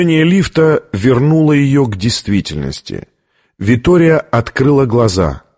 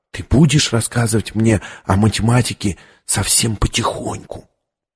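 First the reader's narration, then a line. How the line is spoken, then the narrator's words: Whisper. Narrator (Russian): Виктория прошептала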